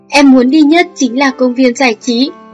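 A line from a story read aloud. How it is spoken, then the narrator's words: Loud, excited, eager. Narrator (Vietnamese): Âu Dương Xuất vừa hưng phấn lại vừa mong mỏi lớn tiếng nói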